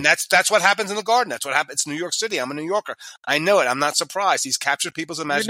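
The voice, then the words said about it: New York accent. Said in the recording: “My accent says I'm still from New York.”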